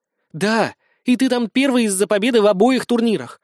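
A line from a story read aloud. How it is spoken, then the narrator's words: Heated exclamation. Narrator (Russian): горячо воскликнула Юля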